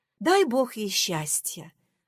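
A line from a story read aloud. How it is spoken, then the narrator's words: Sighing. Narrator (Russian): вздохнула Татуша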